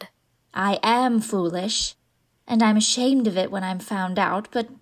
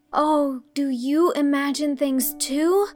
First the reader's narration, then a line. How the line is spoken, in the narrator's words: Anne of the shining eyes exclaimed joyfully